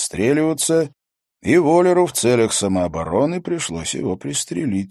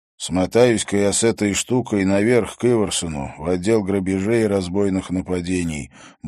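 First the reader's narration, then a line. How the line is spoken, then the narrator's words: Grumbling. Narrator (Russian): буркнул Харри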